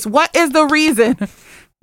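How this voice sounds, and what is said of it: Imitates another person's voice. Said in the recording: “In my Cardi B voice,”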